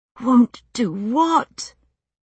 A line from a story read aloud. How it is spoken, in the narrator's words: I was gasping